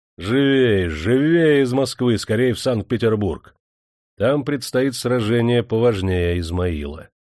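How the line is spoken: Cheerful animated shout. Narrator (Russian): Он оживился и, повеселев, крикнул

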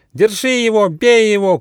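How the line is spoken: Group shouting. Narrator (Russian): кричали

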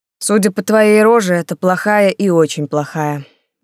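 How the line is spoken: Sighing. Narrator (Russian): вздохнул принц

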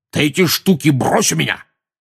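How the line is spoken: Angry bark. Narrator (Russian): рявкнул дядя Вернон

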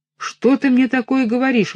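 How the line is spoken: Exclaimed. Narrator (Russian): воскликнул он

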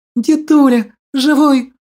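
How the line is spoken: Girl's joyful tearful squeal. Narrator (Russian): Радостно взвизгнула девчушка, орошая своими слезами

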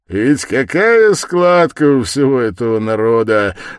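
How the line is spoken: Loud guffaw. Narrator (Russian): захохотал Свидригайлов

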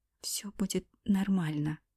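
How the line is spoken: Whisper. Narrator (Russian): прошептала я

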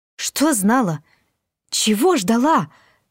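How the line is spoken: Frightened question. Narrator (Russian): испуганно спросила я

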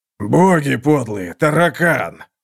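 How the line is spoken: Hoarse voice. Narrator (Russian): сказал он хрипло

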